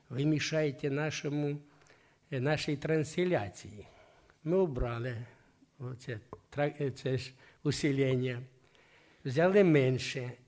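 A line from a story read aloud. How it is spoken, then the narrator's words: Gentle. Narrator (Russian): нежно так говорят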